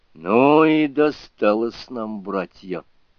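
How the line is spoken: Sigh. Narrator (Russian): вздохнул Сунь-Юкун

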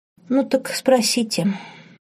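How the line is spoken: Sad. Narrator (Russian): печально посоветовала Рут

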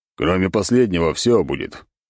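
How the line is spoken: Snake growling. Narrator (Russian): зарычала змеюга

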